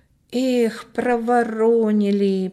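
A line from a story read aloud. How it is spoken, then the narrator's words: Drawled. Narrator (Russian): протянул Коля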